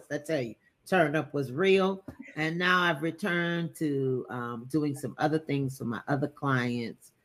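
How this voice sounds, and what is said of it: Hoarse voice. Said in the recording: “You see, I'm hoarse.”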